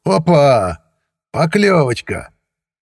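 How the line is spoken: Joyful bark. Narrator (Russian): Сивый радостно гаркнул

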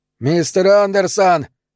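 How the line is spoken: Yelled. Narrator (Russian): завопил он

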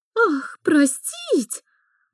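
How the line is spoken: Indignant hiss from behind. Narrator (Russian): раздалось негодующее шипение за спиной Мари

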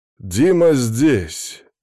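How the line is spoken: Loud speech. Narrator (Russian): громко сказал Сажин

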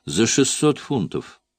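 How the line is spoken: Sharp clipped words. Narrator (Russian): резко отчеканила Джин

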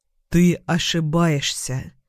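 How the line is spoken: Quiet but firm. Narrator (Russian): говорю тихо, но твердо

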